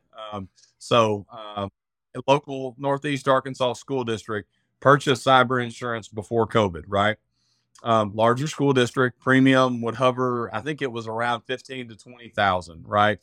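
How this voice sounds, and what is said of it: Southern American redneck accent. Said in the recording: “I'm from Arkansas, if you can tell by the redneck accent.”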